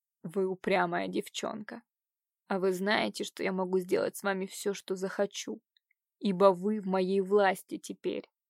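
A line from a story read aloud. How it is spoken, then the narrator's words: Hoarse rasp. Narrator (Russian): Иван прохрипел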